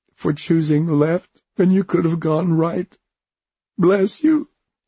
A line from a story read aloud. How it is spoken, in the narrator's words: he said, his voice cracking